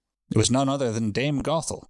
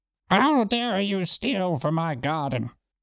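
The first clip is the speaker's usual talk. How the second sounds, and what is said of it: Witch character voice. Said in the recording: “Beautiful witch voice.”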